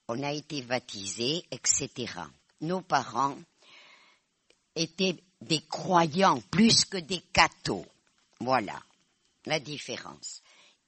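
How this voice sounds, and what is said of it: Basque accent in French. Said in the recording (French): “Je suis basque, vous en avez parlé. Ça se voit à mon accent.”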